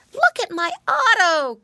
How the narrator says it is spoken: cried Curly Tail

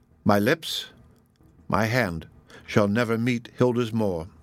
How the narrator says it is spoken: said she

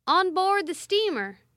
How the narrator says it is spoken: shouted French as directed

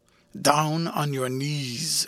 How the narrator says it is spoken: growled the man

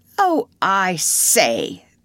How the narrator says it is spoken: cried in dismay

